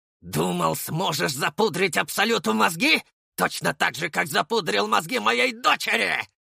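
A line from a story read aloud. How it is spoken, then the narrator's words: Growled between blows. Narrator (Russian): Рычал он между ударами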